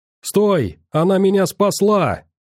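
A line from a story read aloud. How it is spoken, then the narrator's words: Shouting. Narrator (Russian): закричал Райан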